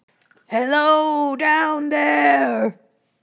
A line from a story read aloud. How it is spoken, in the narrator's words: yelled, trying to get the attention of the other beast